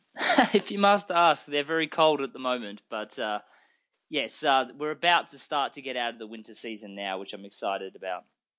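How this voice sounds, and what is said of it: Australian accent. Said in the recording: “with your accent, are you really coming from Texas? ... I'm actually originally from Australia.”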